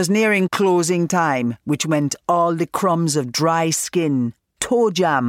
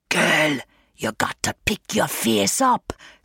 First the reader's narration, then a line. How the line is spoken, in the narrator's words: Synth would whisper